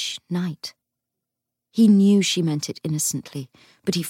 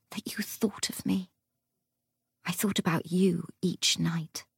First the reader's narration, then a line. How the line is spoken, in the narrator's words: whispered